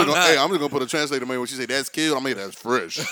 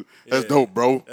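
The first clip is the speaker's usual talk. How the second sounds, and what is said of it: Deepened masculine voice. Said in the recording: “In a man voice, too.”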